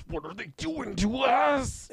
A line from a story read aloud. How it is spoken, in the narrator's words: he yells out in English, but he sounds Japanese